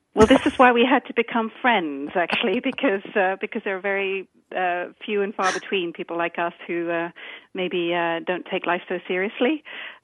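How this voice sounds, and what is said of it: British accent. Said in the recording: “You might be able to tell from my accent that uh, I'm, I'm the British one.”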